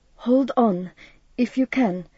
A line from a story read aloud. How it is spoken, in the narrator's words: he gasped